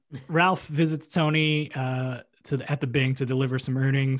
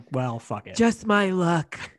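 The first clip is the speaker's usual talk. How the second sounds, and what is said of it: Imitates a TV character's voice. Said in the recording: “Great Rosalie impression. ... Wow, was that Sharon Angela? ... If I close my eyes.”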